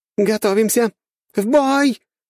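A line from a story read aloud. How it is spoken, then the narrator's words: Shouting. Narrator (Russian): прокричала Чо Сайон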